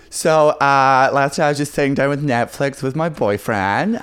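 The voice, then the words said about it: Put-on female American accent. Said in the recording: “you do an American accent. ... I can only do female American accent ... So you're the American ... who just watched Bert Kreischer's special”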